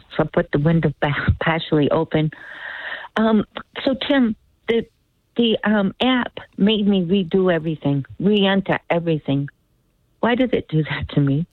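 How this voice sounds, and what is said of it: Slightly raspy voice. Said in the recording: “A little raspy voice today.”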